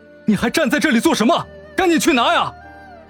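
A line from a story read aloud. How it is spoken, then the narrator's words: Angry roar. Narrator (Chinese): 沈长安……气愤吼道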